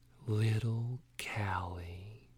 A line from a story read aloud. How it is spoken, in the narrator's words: he whispered